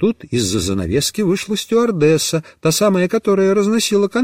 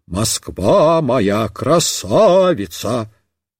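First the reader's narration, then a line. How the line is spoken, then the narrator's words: Singing in bass. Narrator (Russian): вдруг запела басом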